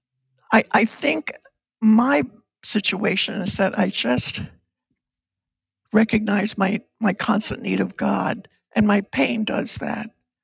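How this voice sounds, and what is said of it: Weak, strained voice. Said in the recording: “You probably hear it in my voice. ... I'm just weak”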